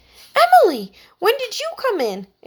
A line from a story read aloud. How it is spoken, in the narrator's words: exclaimed Heidi, jumping to her feet